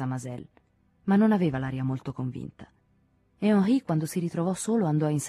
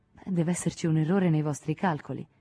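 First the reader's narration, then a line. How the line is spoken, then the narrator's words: Light tone. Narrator (Italian): disse Henri in tono leggero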